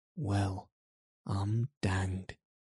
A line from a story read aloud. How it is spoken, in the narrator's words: he said, as softly as if he were saying something quite different